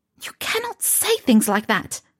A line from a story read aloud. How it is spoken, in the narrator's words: she hissed at him